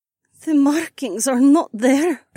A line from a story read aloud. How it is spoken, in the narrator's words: Adhara croaked